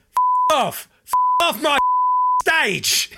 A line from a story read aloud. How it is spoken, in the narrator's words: He shouts